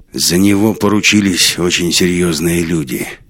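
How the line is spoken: Grim. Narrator (Russian): мрачно ответил Свиридов

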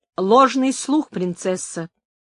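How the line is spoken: Firm voice. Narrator (Russian): ответила Инесс твердым голосом

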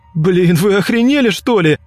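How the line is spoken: Shouting. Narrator (Russian): кричал он

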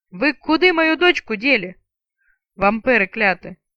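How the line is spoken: Booming voice over battle. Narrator (Russian): Зычный голос перекрикнул гул трех столкнувшихся на площади воинств

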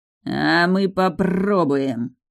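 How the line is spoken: Growling leader. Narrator (Russian): прорычал вожак

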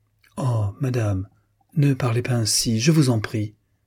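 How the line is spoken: Faint, pleading. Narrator (French): dit Louisa, suppliante et d'une voix faible

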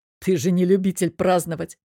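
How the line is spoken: Husband's snort. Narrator (Russian): хмыкнул муж

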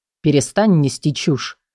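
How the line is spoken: Curt, almost rude. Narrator (Russian): почти грубо отрезал

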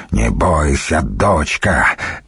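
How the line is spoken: Creaky old man's voice. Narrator (Russian): проскрипел старый варяг

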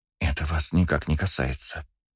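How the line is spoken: Hiss. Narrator (Russian): прошипела Агата

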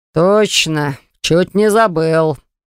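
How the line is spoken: Mage's snorting remark. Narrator (Russian): хмыкнул маг

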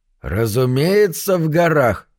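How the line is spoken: Tipsy slurred. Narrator (Russian): проговорил Саймон довольно хмельным голосом

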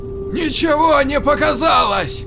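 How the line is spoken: Hoarse shout. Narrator (Russian): хрипло крикнула Нелл

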